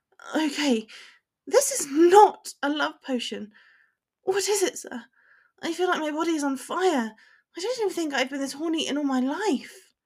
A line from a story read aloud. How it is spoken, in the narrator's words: Panting, she says